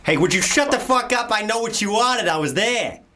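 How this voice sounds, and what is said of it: Put-on Boston American accent. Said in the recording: “American accent ... Do your Boston. Your Boston was good.”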